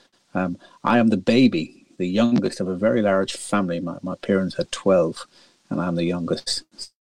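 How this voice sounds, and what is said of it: Irish accent. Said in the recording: “as you can probably tell by my accent, I'm not originally from London or the UK... I was born in a lovely little village in the northwest of Ireland”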